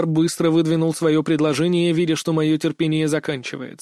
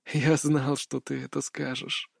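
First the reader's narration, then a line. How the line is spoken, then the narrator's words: Calm. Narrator (Russian): спокойно проговорил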